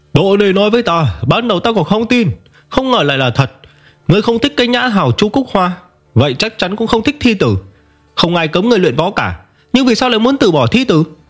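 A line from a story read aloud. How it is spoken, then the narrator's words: Loud stern rebuke. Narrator (Vietnamese): sắc mặt vị giáo tập lập tức trầm xuống, lớn tiếng quả trách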